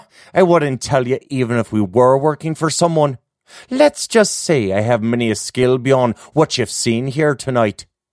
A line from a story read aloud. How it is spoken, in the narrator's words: Gemma barked out a laugh and said